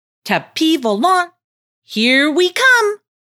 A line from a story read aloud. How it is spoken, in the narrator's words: shouted with glee